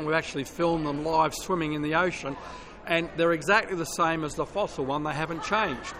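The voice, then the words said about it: Australian accent. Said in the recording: “I've got a very southern accent, but it's further south than Tennessee. It's the other side of the world, and in the land of Australia”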